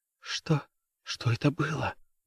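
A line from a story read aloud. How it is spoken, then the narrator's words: Whisper. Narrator (Russian): прошептала она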